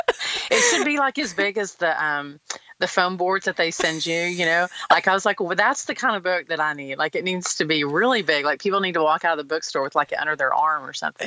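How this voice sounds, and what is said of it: Slight Texas accent. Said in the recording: “you can hear maybe a little bit of an accent. Well, I would call it accent. So you're in Texas.”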